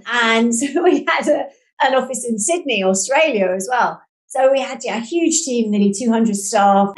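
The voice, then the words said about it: London British accent. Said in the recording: “We had an office in London, where I am. That's where I'm based, hence the accent you can probably pick up on.”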